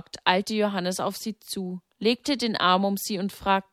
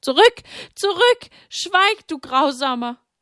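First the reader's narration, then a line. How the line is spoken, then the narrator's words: Loud scream. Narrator (German): Sie schrie laut auf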